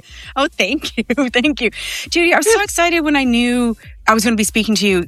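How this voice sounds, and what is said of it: Mixed Canadian and Irish accent. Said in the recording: “I love your accent. Oh, It's gorgeous. ... It started in Canada, but it's been in Ireland for 25 years plus. ... it's just a mix of greatness.”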